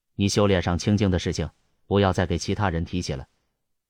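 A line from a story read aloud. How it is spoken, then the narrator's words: Calm, flat. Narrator (Chinese): 安无涯淡淡的说道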